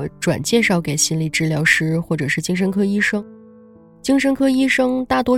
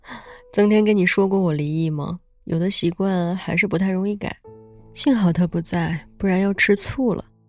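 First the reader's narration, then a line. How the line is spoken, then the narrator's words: Embarrassed laugh, explaining. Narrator (Chinese): 他有些不好意思的笑了一下，解释着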